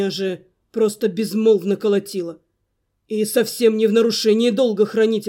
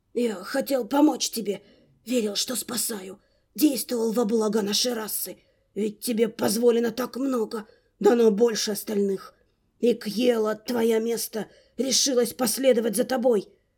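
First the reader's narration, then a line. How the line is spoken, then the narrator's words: Desperate whisper. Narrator (Russian): С отчаянием шептал Ньер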